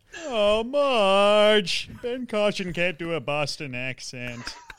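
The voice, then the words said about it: Homer Simpson impression. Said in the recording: “I can do ... Homer. ... Homer? All right, do Homer for us.”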